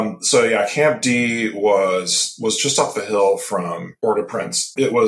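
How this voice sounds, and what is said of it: Usual voice. Nothing is said of it.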